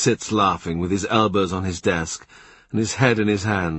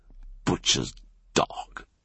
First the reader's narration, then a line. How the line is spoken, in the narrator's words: he sneers